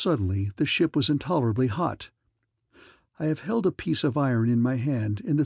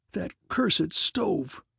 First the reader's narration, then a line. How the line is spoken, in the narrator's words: he gasped